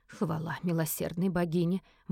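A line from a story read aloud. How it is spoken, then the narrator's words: Relieved exhale. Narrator (Russian): выдохнула она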